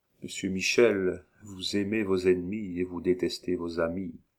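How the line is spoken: Added quietly. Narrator (French): ajouta tout bas

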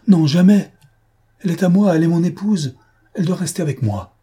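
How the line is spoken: Loud exclamation. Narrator (French): Il s'écria fortement

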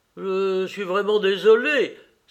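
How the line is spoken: Father exclaiming. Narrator (French): s'écria le père de Marguerite

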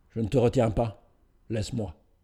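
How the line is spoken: Cold. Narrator (French): elle dit froidement

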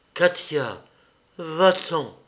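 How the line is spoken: Murmured again. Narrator (French): murmura-t-il encore

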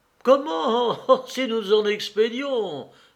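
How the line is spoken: Exclaimed while chewing. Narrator (French): s'écria, mordant au concombre

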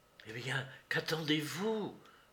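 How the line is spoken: Whispering. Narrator (French): lui dit tout bas Mademoiselle Monistrol

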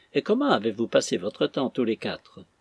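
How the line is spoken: More cheerful. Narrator (French): poursuivit Arthur plus gaiement

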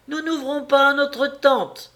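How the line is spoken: Eldest child shouting. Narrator (French): crie alors l'aîné des petits

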